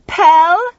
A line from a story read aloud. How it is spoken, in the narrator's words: Tuffy called out